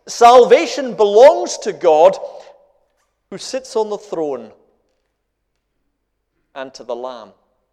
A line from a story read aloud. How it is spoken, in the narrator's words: they cried out in a loud voice